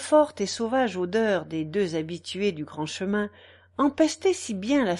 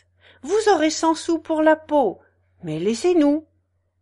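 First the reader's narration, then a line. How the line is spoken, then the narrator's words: Countess exclaiming. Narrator (French): s'écria la comtesse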